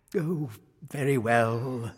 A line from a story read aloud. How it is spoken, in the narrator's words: sighed the king